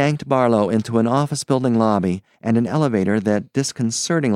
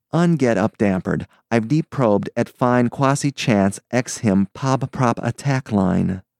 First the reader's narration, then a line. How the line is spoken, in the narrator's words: said the psychist soothingly